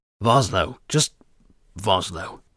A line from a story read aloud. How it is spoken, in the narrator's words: grunted